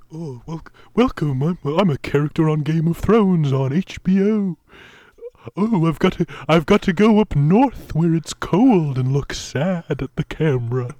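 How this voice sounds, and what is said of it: Game of Thrones character voice. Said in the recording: “That's my Game of Thrones voice. I think it's a pretty good impression of one of them.”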